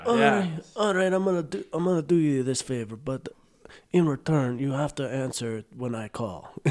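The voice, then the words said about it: Good Godfather mobster impression. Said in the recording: “you do a pretty good, you do a pretty good impersonation. ... That's pretty solid. ... I'm an actual fucking, godfather.”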